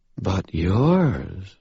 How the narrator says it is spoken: she said, her voice suddenly a purr

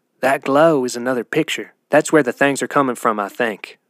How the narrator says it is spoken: Ratsy whispered to Muffins

